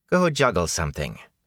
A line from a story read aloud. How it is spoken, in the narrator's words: she snapped